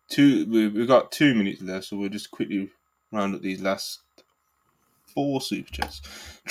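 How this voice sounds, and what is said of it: British accent. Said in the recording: “these British voices”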